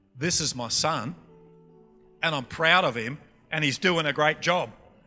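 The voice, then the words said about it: Broad North Queensland Australian accent. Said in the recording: “Let me translate it into North Queensland for you. ... You got my accent?”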